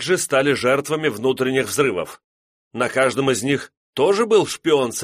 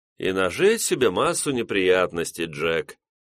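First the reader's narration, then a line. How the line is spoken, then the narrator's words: Bored voice. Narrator (Russian): скучающим голосом произнес его старый знакомый из разведки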